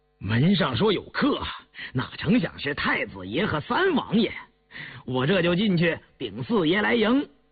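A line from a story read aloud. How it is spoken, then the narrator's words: Laughing. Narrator (Chinese): 高福笑道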